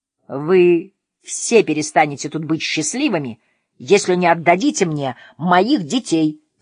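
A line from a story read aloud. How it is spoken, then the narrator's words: Shouting. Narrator (Russian): закричала Настя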